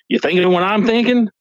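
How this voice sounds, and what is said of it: Put-on accent. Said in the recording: “that accent that you just did, you totally could have been in this movie”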